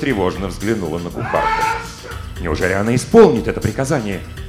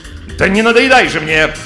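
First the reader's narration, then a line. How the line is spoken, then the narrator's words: Shouted. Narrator (Russian): крикнула герцогиня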